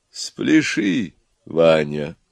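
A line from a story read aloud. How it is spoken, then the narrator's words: Soft, tender. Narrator (Russian): тихо и ласково сказала самая умная голова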